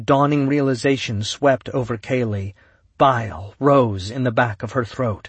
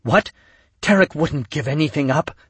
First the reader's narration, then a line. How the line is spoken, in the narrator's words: Kaylee whispered